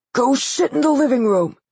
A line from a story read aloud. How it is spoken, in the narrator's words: he yelled